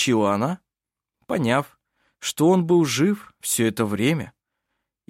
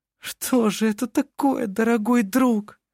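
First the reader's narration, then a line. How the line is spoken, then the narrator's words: Sobbing. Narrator (Russian): всхлипывала она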